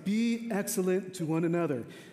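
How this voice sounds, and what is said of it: Imitates another person's voice. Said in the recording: “my Keanu Reeves impersonation”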